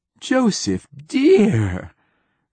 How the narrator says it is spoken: cried Wingreen Fief

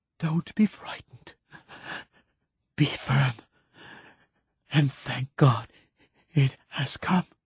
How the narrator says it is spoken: gasped Keats

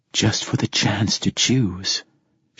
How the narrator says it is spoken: she said softly

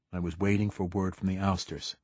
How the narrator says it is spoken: the consul said flatly

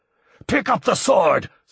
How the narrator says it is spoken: screamed Bertol

